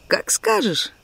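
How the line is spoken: Easy agreement. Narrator (Russian): легко согласился он

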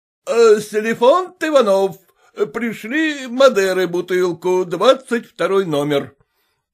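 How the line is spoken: Shout. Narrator (Russian): крикнул Урываев за буфет буфетчику

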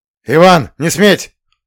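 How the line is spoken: Barked. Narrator (Russian): рявкнул Романовский

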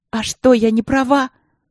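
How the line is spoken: Tearful shouting. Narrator (Russian): кричала я ей в лицо, вытирая слезы

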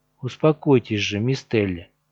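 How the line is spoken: Calm grumble. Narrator (Russian): спокойно проворчал Лорн

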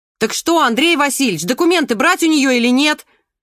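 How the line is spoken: Shouted after someone. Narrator (Russian): крикнула вслед молчавшая до сих пор Надя

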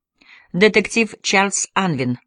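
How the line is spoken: Plain. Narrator (Russian): ответил он

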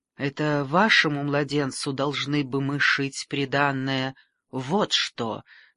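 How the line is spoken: Disapproving mutter. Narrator (Russian): неодобрительно пробормотала она

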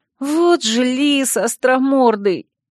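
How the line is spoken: Miserable drawn-out voice. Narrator (Russian): Несчастным голосом протянула я

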